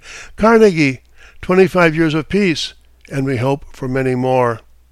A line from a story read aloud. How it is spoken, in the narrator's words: exclaimed